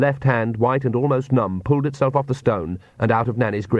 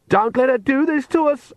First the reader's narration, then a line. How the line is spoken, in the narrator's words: Agnes shrieked